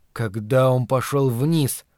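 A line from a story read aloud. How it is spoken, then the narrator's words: Mumble. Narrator (Russian): пробормотал Ларри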